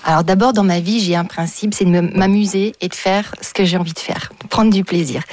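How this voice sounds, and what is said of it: Slight distinctive French accent. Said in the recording (French): “j'ai un petit accent un peu particulier”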